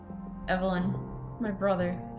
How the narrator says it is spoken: she answered softly and tenderly

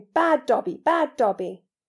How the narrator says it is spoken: shouting

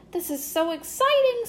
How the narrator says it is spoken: squealed Pinkie Pie

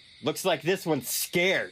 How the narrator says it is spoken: Jeff shouted

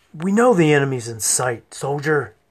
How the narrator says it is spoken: Helmer snapped

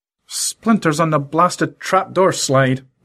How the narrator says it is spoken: muttered Lorenzo

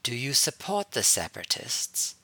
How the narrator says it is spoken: Shaktai asked quietly

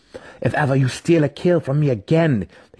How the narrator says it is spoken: he spat, sincerity dripping from his false words

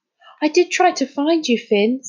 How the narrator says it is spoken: said Amir anxiously

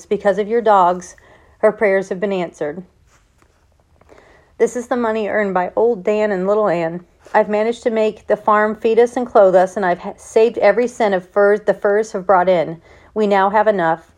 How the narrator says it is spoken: he said in a low voice

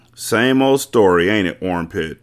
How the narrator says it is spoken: X-Ray had said

